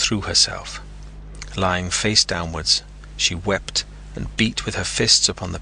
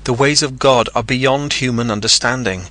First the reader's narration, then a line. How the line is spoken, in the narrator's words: he cried